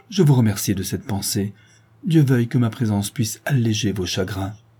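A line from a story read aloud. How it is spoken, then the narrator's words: Exclamation. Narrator (French): s'écrie Ottavio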